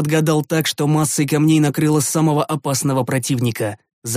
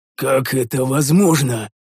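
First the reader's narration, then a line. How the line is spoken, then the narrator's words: Growling. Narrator (Russian): прорычал один из воинов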